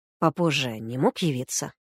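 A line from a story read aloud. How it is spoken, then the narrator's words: Hissed. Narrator (Russian): прошипел Егор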